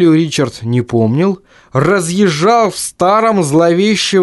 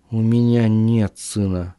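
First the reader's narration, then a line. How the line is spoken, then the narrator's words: Muttering. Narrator (Russian): пробормотал Ричард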